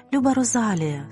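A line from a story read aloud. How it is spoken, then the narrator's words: Tender. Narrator (Ukrainian): сказала вона ніжно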